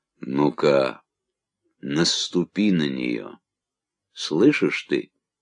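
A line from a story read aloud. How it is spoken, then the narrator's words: Warm, soft voice. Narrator (Russian): сказал по-английски, странно потеплевшим мягким голосом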